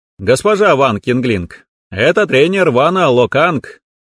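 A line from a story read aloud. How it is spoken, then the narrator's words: Cheerful, smiling introduction. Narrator (Russian): весело мне улыбнувшись, представился тренер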